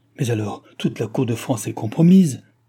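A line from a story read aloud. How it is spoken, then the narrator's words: Duchess exclaiming. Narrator (French): s'écria la duchesse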